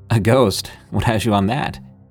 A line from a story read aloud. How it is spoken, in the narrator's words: Dad chuckled